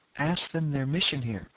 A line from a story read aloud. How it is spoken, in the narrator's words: whispered Thuvia at my elbow